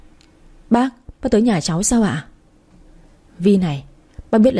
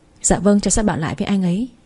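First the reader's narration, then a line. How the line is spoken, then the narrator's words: Awkward forced-laugh reply. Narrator (Vietnamese): Tôi khẽ cười gượng một cái rồi trả lời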